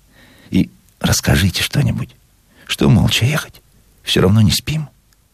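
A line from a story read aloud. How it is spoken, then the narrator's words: Sudden whisper. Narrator (Russian): внезапно зашептала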